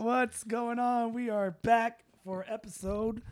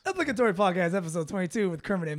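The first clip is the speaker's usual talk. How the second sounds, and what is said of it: Exaggerated radio announcer voice. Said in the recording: “radio voice ... go into radio mode ... There it is.”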